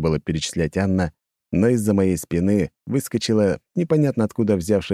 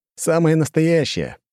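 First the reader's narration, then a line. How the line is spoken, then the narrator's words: Scoffing grunt. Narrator (Russian): хмыкнул я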